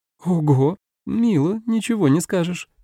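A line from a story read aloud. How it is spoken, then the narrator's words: Giggled. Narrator (Russian): хихикнула Коиси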